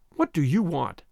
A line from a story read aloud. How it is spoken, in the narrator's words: she said stiffly